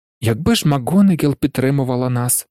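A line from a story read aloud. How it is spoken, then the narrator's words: Sighing. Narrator (Ukrainian): зітхнув Гаррі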